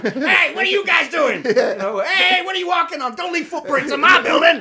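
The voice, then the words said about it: Angry old man character voice. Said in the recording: “I did a voice. ... that sounded like an angry old Jewish man.”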